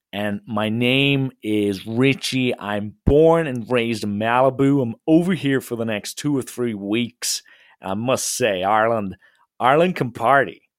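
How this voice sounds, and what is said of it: Put-on American Malibu accent. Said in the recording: “I tend to put on an American accent ... I put on a Malibu accent.”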